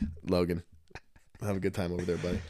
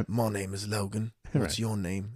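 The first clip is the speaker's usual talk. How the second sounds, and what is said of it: Put-on British accent. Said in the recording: “He's probably got like a little British accent. ... girls dig British accents”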